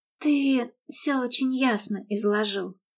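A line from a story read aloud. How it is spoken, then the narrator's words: Soft reply. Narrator (Russian): мягко ответила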